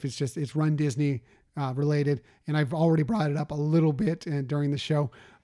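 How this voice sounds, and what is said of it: Strained, fading voice. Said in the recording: “we've gone long and my voice is going here”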